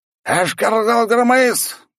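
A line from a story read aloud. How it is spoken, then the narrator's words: Loud bark. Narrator (Russian): громко рявкнул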